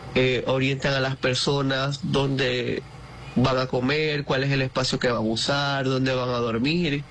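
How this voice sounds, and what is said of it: Venezuelan Maracaibo accent. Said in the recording (Spanish): “como maracucho que soy, el acento se enmarca mucho más ... nuestro acento maracucho”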